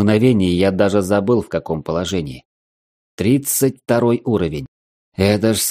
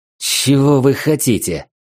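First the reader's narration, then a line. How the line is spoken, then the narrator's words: Hoarse rasp. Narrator (Russian): прохрипел я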